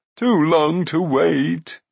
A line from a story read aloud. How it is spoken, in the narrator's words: moaned Glew